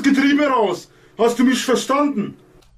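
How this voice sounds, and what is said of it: Put-on Russian accent. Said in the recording (German): “Sollte das russischer Akzent sein”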